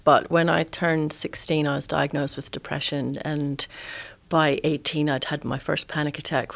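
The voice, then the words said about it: Slight Scottish accent. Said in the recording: “You might hear a bit of an accent there. I grew up in Edinburgh”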